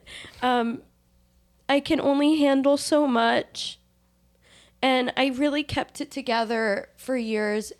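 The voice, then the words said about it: Crying, tearful voice. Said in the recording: “my voice is being so annoying when I cry”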